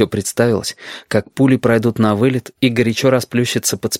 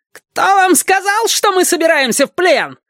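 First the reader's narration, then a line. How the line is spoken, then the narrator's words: Shrill reply. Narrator (Russian): визгливо отозвался Хариус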